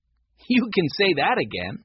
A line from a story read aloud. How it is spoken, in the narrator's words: said Henry, laughing